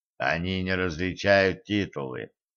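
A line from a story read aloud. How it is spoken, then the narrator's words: Low-voiced prompting. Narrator (Russian): вполголоса подсказал Кощей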